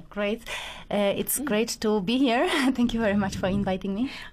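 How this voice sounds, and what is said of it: Polish accent. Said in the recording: “that beautiful accent coming from? ... from Poland ... It's Polish accent.”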